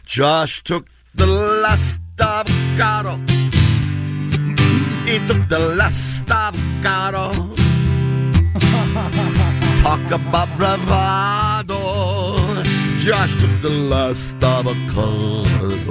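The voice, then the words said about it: Put-on Eastern European accent, sung. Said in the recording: “Can I do it with an accent? ... Something Eastern European.”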